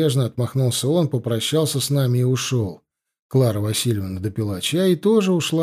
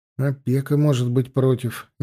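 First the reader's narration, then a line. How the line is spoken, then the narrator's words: Uncertain interjection. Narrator (Russian): неуверенно вставил я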